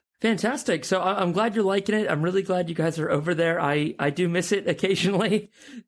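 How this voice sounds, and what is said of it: American accent. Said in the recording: “my weird American accent”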